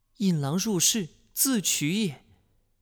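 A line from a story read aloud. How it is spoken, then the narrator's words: Shocked sigh. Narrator (Chinese): 西夫人惊闻突变，叹道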